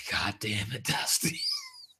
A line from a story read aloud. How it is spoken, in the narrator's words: let out an audible sigh